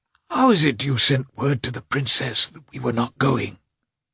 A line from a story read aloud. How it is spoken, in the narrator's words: He said in an irritable whisper, his voice failing him